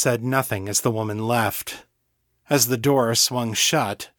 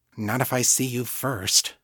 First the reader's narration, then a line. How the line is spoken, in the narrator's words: she muttered